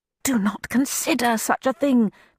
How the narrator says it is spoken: begged her good sense

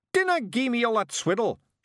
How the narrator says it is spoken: shouted Rob, bouncing up and down in rage

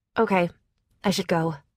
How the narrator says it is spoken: I said quickly

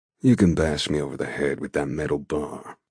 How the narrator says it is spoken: he states, his voice a deep drawl that makes love to my ears

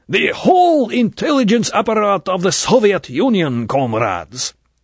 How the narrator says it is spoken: The voice was now a furious bellow

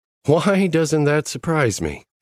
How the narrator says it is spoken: Sadie chuckled

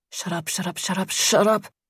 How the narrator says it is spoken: Brandy mumbled into the pillow

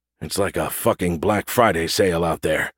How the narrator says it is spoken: Gus said under his breath

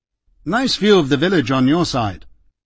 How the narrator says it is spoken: he recovered himself quickly with a short laugh and remarked

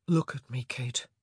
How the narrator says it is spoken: he whispered, his voice gentle but suffused with authority

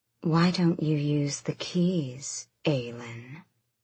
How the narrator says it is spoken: Maeve purred

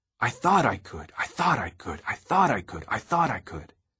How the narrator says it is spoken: I grinned happily and bounced and said

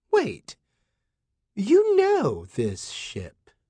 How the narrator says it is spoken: Her voice turned suspicious

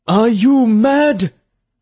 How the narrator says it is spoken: the overseer shouted

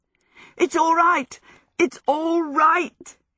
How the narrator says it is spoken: he shouted joyfully

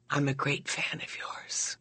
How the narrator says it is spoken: to whisper in my left ear

